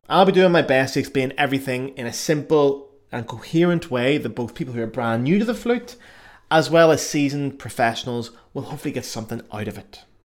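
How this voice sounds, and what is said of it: Irish accent. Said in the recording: “I've got an Irish accent.”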